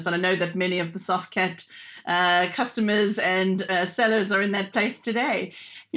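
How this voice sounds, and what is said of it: South African accent. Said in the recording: “as you can probably hear from my dodgy accent. I'm actually from South Africa originally”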